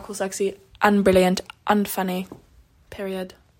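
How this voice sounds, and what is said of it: Poor put-on British accent. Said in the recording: “You really can't do a British accent.”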